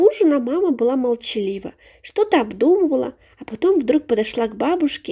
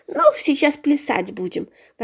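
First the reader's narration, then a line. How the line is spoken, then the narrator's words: Grumbling old woman. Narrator (Russian): ворчала бабушка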